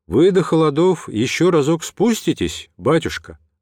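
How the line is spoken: Plain. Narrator (Russian): расставаясь, спросил Георгий

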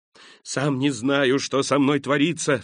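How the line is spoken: Crying out, weeping and laughing. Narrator (Russian): вскричал он, плача и смеясь

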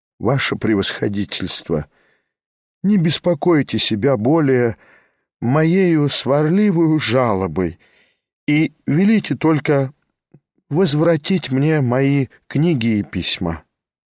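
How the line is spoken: Deeply heartfelt voice. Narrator (Russian): Степан Трофимович глубоко проникнутым голосом произнес

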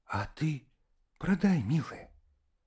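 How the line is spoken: Whispering. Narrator (Russian): шептала Катерина Петровна

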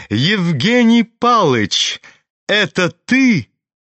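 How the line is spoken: Sudden ringing shout. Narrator (Russian): крикнул вдруг звонкий, прекрасный голос

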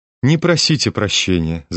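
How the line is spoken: Laughing. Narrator (Russian): засмеялась Настасья Филипповна

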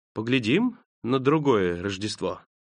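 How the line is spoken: Thoughtful, smiling. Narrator (Russian): Дух задумчиво улыбнулся и сказал

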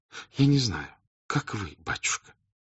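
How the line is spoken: Whispering. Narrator (Russian): шепотом проговорила княжна

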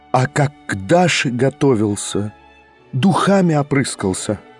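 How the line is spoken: Sudden terrible whisper. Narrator (Russian): проговорила она вдруг страшным шепотом

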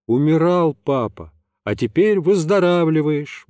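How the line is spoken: Cheerful voice. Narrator (Russian): бодрым голосом сказал я

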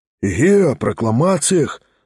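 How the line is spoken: Audience whispering. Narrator (Russian): зашептали в публике

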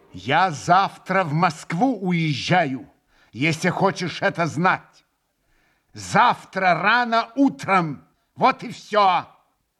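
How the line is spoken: Angry, loud, measured. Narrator (Russian): Со злобою раздельно и громко вдруг проговорил он

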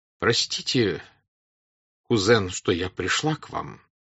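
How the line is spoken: Reproachful agitated voice. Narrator (Russian): сказала она укоризненно взволнованным голосом

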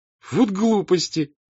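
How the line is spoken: Laughing shout. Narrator (Russian): смеясь крикнула Наташа

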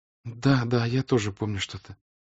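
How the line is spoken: Timid reply. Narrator (Russian): робко отвечала Соня

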